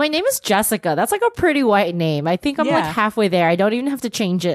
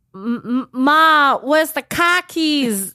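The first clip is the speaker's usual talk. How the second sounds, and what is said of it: Put-on Boston accent. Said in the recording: “pretend to be like a white girl from Boston ... perfect the accent, you know, because that's all it's about is the accent ... Now we're being offensive to all Bostonians.”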